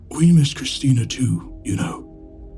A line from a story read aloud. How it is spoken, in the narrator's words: he grumbled from behind a thick white mustache